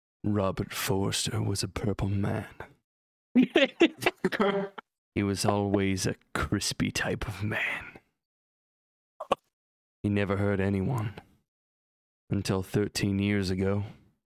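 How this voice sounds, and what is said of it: Spooky scary-story narration voice. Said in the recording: “in your best scary story voice”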